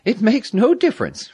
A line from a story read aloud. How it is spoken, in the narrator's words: Frida laughed